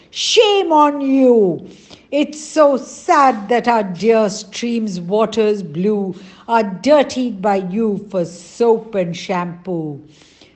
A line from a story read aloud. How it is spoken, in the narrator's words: The villagers cried